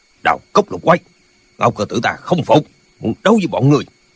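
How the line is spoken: Shout. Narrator (Vietnamese): quát lên

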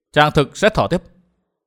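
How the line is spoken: Assertive. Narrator (Vietnamese): Phùng Họa nói với một giọng khẳng định

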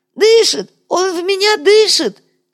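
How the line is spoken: Shrill breathless wailing. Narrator (Russian): визгливо причитал на бегу натуга

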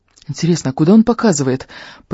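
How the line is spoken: Muttered. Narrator (Russian): пробормотал Фарри

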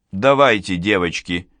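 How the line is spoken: Forced calm. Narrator (Russian): сказала я, стараясь, чтобы мой голос звучал спокойно

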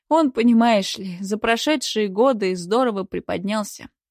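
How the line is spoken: Sigh. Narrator (Russian): вздохнула Марина

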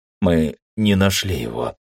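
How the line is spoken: Hoarse report. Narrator (Russian): хрипло доложил один из них

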